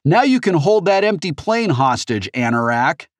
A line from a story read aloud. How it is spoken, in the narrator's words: Even through the wind, she shouted